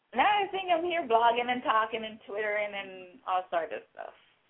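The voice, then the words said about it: Jamaican accent. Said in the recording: “Do I detect some kind of Caribbean, Jamaican accent, something like that”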